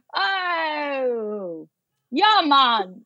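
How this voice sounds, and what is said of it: Put-on Jamaican accent. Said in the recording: “It's actually a Jamaican accent.”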